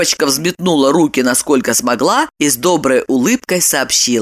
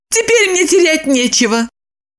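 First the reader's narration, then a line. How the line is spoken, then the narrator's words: Cheerful mock lament. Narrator (Russian): бодро сокрушилась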